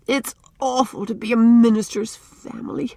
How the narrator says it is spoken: groaned Faith into her pillow

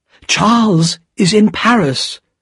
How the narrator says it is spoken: cried Lucy

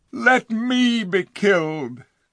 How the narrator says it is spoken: cried the king

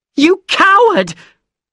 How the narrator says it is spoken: she screamed

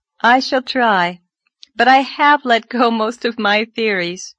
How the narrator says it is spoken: said Anne, laughing a little

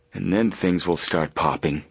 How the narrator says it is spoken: Frank murmured

